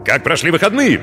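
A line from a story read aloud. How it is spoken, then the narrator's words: Barked. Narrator (Russian): гаркнул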